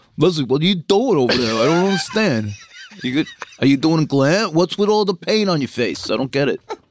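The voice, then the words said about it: Jersey guy accent impression. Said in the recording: “When you do the fucking like this guy from Jersey or something ... every dumb guy ever ... You do it funkier than that”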